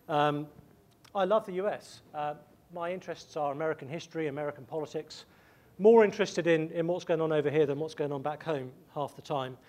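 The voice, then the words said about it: English accent. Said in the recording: “I'm an Englishman ... my accent sounds like I would happily rule over you”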